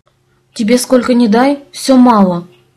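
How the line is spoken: Grumbling. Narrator (Russian): проворчала я

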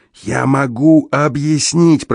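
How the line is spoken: Hoarse croak. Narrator (Russian): прохрипел я наконец

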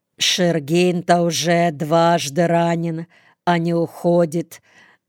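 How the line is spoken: Plain. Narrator (Russian): говорит политрук

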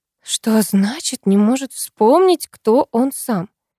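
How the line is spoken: Weary exhale. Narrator (Russian): Она устало выдохнула

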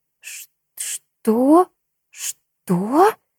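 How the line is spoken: Stammering. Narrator (Russian): заикаясь, произнесла Майя

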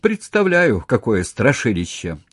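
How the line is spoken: Laughing. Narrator (Russian): Он засмеялся

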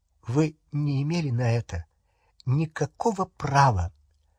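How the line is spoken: Trembling voice. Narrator (Russian): она сказала дрогнувшим голосом

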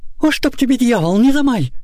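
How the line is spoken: Angry woman shouting. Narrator (Russian): закричала рассерженная Прасковья

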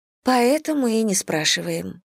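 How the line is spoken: Sighing. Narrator (Russian): вздохнула я

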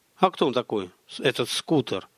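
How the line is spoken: Plain question. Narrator (Russian): спросил Олег

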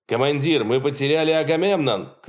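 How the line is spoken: Someone shouted. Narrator (Russian): крикнул кто-то на мостике Ники

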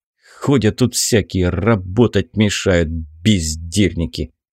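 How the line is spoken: Hissed after someone. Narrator (Russian): прошипел я вслед ни в чем не повинному лыжнику

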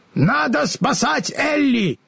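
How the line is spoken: Shout. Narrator (Russian): закричал Страшило

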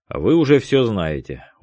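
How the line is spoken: Tired. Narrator (Russian): устало ответил Дронго

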